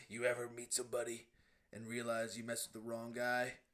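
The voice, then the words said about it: Imitates another person's voice, badly. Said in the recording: “The worst impression. ... Yeah, that was really bad.”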